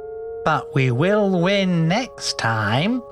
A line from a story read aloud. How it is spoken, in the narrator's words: purred the optimistic Ludwig